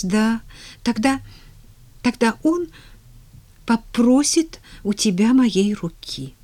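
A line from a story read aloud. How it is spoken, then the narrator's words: Uncertain, embarrassed. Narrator (Russian): неуверенно продолжила Поллианна, заливаясь ярким румянцем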